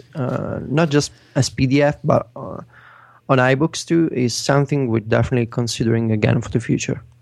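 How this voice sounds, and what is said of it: Italian-accented English. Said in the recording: “in case people hadn't been able to guess by your accent, you, you live and, and work in Italy still”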